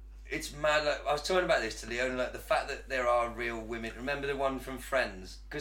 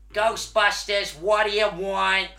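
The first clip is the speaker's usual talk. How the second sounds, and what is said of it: Imitated strong New York accent. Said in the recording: “It's proper New York accent, isn't it?”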